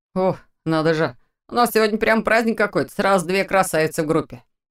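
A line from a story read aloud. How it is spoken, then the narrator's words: Mocking but friendly young man. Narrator (Russian): Насмешливо, но не обидно прокомментировал ее появление молодой высокий парень в форме легионера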